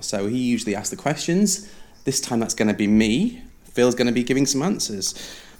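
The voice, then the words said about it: Pleasant, polished radio voice. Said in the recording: “You have such a lovely radio voice ... You do have a wonderful radio voice”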